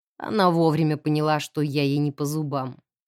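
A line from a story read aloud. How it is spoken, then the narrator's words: Mocking explanation. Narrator (Russian): насмешливо объяснил подошедший сзади мистер Гилмор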